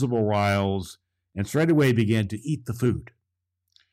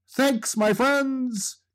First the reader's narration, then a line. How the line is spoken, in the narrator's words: He called out